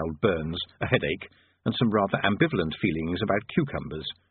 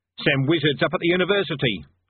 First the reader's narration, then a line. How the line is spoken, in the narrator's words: said the barman, hastily